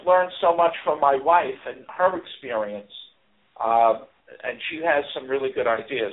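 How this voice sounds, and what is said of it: New York Bronx accent. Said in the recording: “you can hear it in his accent, a New Yorker ... he's a Bronx native”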